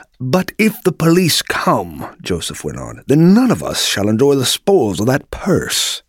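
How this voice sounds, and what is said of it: Genteel, refined character accent. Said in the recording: “said Joseph in a genteel accent”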